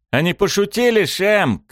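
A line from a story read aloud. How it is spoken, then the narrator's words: Shouting. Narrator (Russian): крикнул Буринам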